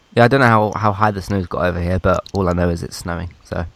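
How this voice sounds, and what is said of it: Congested, sick-sounding voice. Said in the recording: “if you can hear it in my voice, which... I feel like I can. I have got a cold”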